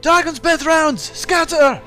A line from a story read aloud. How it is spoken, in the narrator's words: yell out